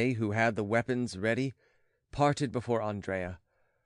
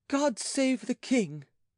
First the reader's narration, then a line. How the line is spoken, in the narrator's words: she cried